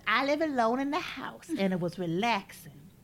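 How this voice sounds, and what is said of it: Mimicked voice of a woman. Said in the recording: “This is exactly how she sounds. ... That's exactly how she sounds. ... I'm a master of voice mimicking.”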